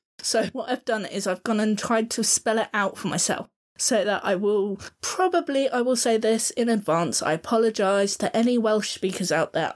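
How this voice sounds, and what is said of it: Southern English accent. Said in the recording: “our Cockney accent, or my Southern accent”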